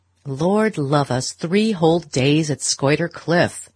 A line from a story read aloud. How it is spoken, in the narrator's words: Beaufort was saying in his loud, sneering voice